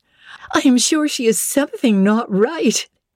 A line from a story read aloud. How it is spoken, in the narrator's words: they cried, one and all